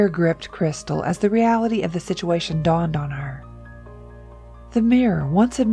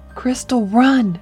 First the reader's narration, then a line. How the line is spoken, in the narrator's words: he pleaded, a genuine urgency